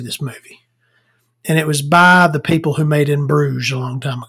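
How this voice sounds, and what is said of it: Usual voice. Nothing is said of it.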